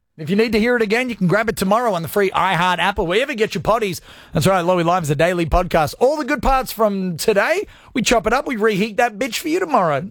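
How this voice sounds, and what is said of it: Fast, running out of breath. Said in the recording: “I ran out of breath on that break.”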